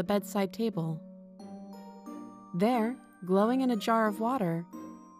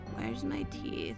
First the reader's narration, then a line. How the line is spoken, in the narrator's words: Granny mumbled